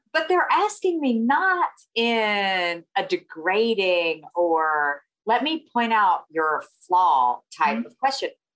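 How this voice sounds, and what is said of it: Southern American accent. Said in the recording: “obviously I have a Southern accent”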